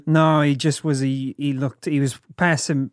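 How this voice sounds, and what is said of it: Poor Australian accent, drifting Kiwi. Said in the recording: “My Australian accent's getting so much worse. ... I feel like I go more Kiwi with it.”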